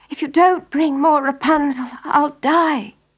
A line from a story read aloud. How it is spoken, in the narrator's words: she begged her husband